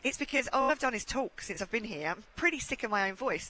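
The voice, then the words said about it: Hoarse, strained voice. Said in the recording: “can you tell I'm starting to lose my voice a little bit?”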